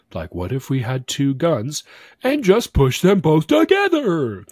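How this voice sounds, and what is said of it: Weak Patrick Star cartoon voice. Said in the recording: “my Patrick Starr impression, which was not very good”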